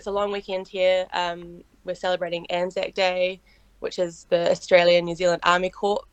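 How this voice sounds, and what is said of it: New Zealand accent. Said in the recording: “I do apologize if people can't understand my accent. I did get that a lot when I was in Europe. And like Kiwis don't say I sound very Kiwi, but I think to other people, but yeah, the accent's just messed up”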